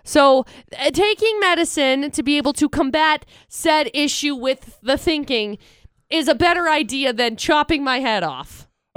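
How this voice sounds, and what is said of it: Congested head-cold voice. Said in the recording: “I have a head cold.”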